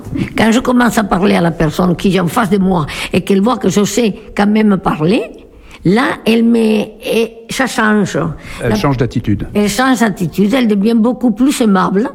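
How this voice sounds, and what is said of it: Slight foreign accent in French. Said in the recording (French): “je suis pris pour une étrangère. Je suis l'étrangère qui parle avec un léger accent”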